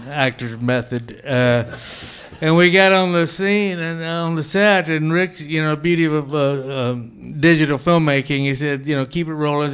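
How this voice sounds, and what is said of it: Put-on Texan good-old-boy accent. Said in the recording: “talking about Texas and good old boy, I was playing a role. ... The accent I put on like I'm doing right now.”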